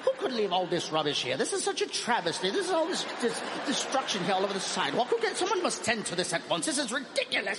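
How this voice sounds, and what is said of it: Put-on proper British accent. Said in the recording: “people from the UK ... That accent is so proper. It is so proper.”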